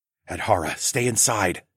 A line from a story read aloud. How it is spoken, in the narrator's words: I whispered